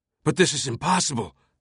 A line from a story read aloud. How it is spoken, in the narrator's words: Silas had cried out